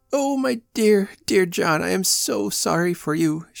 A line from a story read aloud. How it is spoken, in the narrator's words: she exclaimed gaspingly